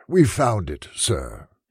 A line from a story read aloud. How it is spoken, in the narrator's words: he said with a sigh